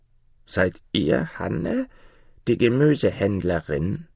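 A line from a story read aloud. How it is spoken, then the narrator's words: Old woman's croaking question. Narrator (German): fragte das alte Weib mit krächzender Stimme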